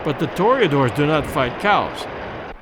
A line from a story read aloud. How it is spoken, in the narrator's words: said